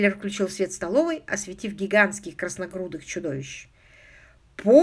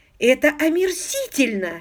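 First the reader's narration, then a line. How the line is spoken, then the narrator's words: Indignant exclamation. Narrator (Russian): с негодованием воскликнула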